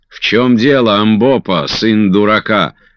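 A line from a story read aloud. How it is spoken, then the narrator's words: Shout in Zulu. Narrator (Russian): крикнул по-зулусски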